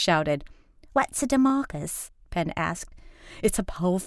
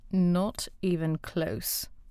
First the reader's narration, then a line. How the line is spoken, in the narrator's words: Beth muttered